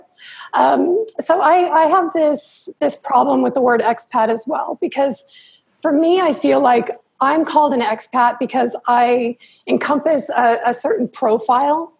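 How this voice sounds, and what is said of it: Voice sounds sick and rough. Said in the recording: “excuse my voice, I've been a little under the weather.”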